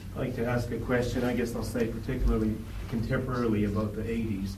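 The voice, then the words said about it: Canadian accent. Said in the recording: “you can tell from my accent that I'm ... Canadian.”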